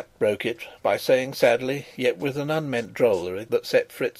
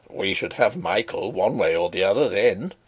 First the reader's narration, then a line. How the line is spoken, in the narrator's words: he chuckled